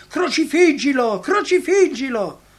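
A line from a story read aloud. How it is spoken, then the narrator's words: Furious crowd shouting. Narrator (Italian): accrescere il furore della folla, che gridò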